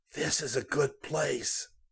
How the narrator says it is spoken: whispered

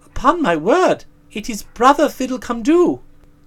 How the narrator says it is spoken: cried Prince Thinkabit

